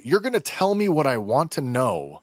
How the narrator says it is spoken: Reva forcefully exclaiming to Leia

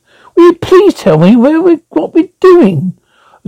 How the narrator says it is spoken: she wailed

